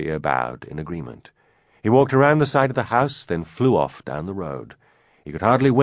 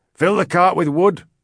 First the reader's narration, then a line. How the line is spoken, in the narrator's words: Min barked